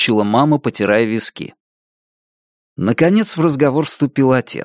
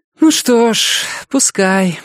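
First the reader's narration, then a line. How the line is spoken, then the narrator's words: Sighing agreement. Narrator (Russian): вздохнув, согласилась мама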